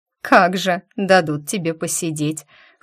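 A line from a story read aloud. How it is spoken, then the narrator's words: Witch cackling. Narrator (Russian): хохотнула ведьма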